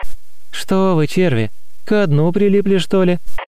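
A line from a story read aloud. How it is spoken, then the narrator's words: Laughing. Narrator (Russian): Рассмеялась она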